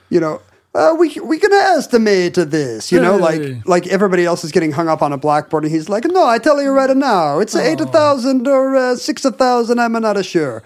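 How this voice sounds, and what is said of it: Put-on Italian accent. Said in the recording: “I was about to do an Italian accent. Is that offensive?”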